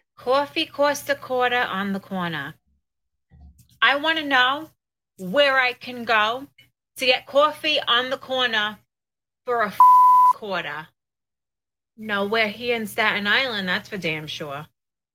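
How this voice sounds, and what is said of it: East Coast New York accent. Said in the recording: “East Coast accent, Italian, or maybe it's a Jersey or New York accent”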